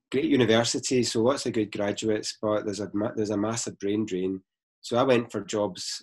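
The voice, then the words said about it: Glaswegian Scottish accent. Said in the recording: “I'm from Glasgow, which you can probably tell by the accent”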